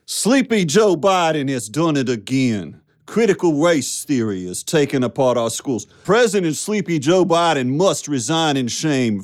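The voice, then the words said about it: Put-on Southern American accent. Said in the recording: “What if Donald Trump tweeted in a Southern accent.”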